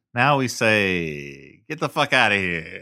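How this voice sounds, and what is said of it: Bridge-and-tunnel John Gotti accent. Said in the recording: “like a regular John Gotti. Where was that accent earlier? ... your bridge and tunnel guy accent”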